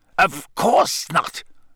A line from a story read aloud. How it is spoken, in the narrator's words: Snape snapped